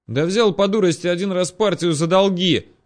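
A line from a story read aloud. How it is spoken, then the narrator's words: Shouting in face. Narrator (Russian): крикнул мне в лицо угорь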